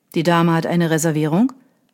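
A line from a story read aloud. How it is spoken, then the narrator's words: Plain. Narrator (German): fragte der Kellner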